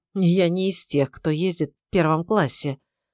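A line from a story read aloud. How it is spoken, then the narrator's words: Strained, forced words. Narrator (Russian): выдавил из себя учитель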